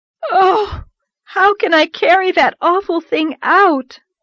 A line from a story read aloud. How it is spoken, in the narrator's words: moaned Anne with a shudder